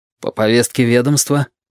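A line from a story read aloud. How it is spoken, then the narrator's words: Booming snort. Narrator (Russian): Розалия Барзаконь гулко хмыкнула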